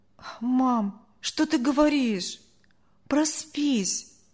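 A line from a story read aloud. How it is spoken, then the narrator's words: Sighing boy. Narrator (Russian): вздохнул мальчик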